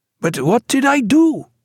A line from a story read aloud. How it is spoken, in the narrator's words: he cried